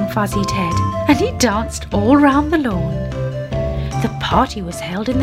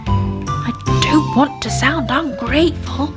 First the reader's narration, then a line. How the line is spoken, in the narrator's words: he whispered to Granny Ted